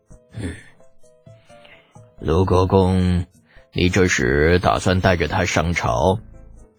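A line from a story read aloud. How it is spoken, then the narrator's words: Sighing. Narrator (Chinese): 叹了口气道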